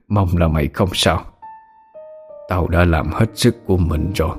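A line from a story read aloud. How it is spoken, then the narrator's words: Strained muttering. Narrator (Vietnamese): Mồ hôi như tắm, ông lẩm bẩm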